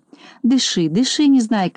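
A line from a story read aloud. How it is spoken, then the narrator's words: Gentle. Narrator (Russian): ласково сказал доктор Пилюлькин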